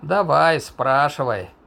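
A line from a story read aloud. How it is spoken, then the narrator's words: Deliberately lazy, indifferent. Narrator (Russian): нарочито лениво и безразлично предложил он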